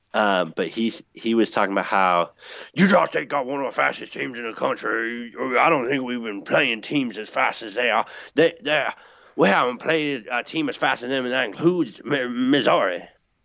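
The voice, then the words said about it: Imitates another person's voice. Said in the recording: “I'm going to try and do an impression here ... was my best Orgeron impression, and it really turned into kind of Farmer Fran from The Waterboy ... it wasn't great”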